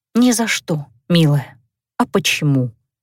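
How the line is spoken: Sighing. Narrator (Russian): Вздохнула я

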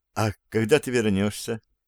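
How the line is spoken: Quiet question. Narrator (Russian): она тихо спросила

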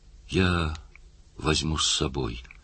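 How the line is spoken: Gentle insistence. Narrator (Russian): мягко настаивал парнишка

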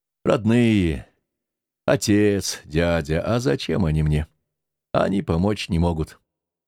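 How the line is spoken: Angry, gloomy inner thought. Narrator (Russian): сердито и уныло думал

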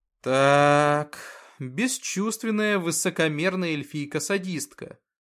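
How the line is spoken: Heavy-sighing summary. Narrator (Russian): подвел итог Артем, тяжело вздохнув

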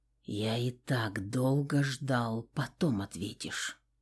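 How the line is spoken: Whisper. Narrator (Russian): прошептал Кристиан

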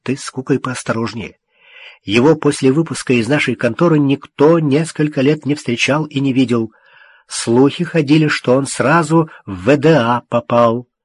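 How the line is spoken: Hurried whisper. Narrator (Russian): тот торопливо зашептал

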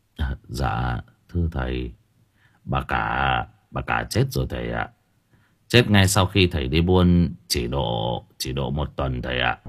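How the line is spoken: Soft reply. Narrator (Vietnamese): Cậu bà Ha khẽ đáp

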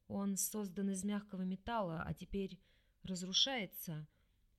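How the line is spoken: Automatic whisper. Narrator (Russian): Этирей шепотом произнес на автомате, озвучивая мысль

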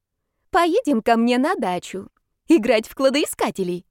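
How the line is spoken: Cheerful spirit announcing. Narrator (Russian): объявила весело дух

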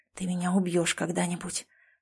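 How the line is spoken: Whisper. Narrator (Russian): прошептал он

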